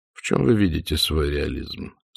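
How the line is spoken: Dry inquiry. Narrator (Russian): сухо поинтересовался Ассорио

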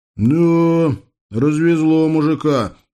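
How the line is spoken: Grumbling, sympathetic, envious, approving. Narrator (Russian): с чисто русской смесью сочувствия, зависти и одобрения пробурчал бывший москвич

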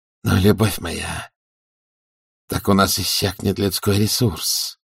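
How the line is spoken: Muttered. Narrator (Russian): пробормотал герцог

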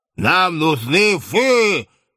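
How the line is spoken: Menacing offended roar. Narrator (Russian): Грозно проревел справедливо оскорбленный бармен

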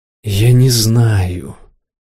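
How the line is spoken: Tired. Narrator (Russian): сказала Ирена устало

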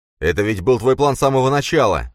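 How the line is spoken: Shouting while running. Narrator (Russian): крикнул он на бегу Лире

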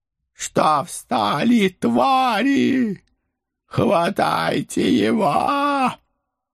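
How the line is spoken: Frenzied shriek. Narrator (Russian): Бешено завизжал барон

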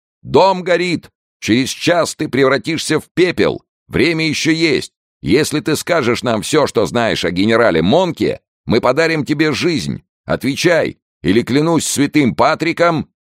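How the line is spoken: Shouted. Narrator (Russian): офицер крикнул осажденному

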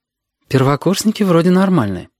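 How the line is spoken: Dry repetition. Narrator (Russian): повторила сухо

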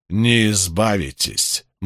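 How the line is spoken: Grim prediction. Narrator (Russian): мрачно предрек Иерусалим

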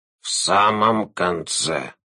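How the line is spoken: Low hoarse voice. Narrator (Russian): низким хриплым голосом сказал слон

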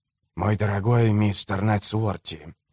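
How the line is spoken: Soft. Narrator (Russian): мягко проговорил он

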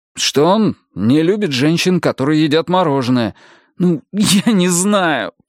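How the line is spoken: Groaning. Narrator (Russian): простонал Адам

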